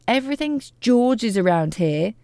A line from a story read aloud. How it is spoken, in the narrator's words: shouted Grandma